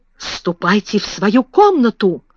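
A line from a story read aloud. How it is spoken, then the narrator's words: Exclaimed, breathless with anger. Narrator (Russian): воскликнула, задыхаясь от гнева, мисс Минчин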